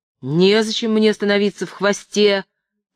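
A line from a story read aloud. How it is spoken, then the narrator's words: Shouting while struggling. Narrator (Russian): кричал Джек, отбиваясь и дергая головой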